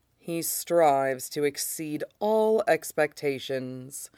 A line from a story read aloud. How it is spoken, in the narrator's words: Shen Qingtu says flatly